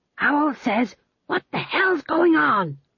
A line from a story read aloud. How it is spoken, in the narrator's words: He hissed